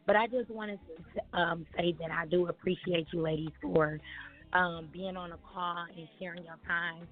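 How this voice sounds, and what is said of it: Slightly hoarse voice. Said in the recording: “I know you can tell I'm a little bit hoarse”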